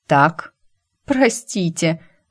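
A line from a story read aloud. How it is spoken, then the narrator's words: Strangled, strained. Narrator (Russian): сдавленно выдавила я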